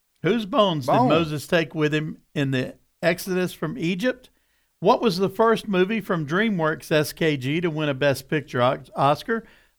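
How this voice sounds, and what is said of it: Southern American accent. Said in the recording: “lest my southern accent make you think I said wonder”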